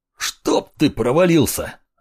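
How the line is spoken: Barking shout. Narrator (Russian): рявкнул

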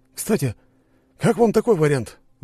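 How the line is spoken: Sudden exclamation. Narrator (Russian): вдруг воскликнул Валера

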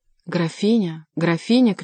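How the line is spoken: Shouting. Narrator (Russian): кричал голос

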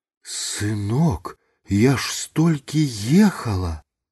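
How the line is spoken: Pleading. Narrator (Belarusian): Узмалілася яна

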